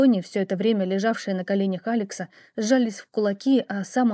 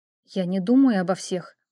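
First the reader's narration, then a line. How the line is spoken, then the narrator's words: Tight-lipped, through teeth. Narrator (Russian): поджав губы, процедила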